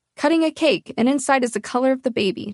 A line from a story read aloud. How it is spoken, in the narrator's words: Chad exclaims, excited